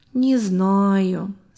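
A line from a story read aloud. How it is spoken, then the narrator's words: Doubtful drawl. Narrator (Russian): с сомнением протянул Сережа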